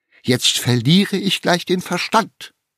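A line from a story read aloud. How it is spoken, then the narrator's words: Exclaimed. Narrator (German): rief Tante Tinne aus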